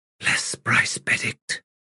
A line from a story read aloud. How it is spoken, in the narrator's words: she said under her breath